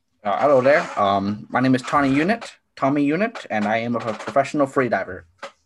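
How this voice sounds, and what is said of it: Speaks with a noticeable accent. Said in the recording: “That accent, where is that? ... Where am I hearing that from? ... what area of the world did you grow up in that gave you this accent?”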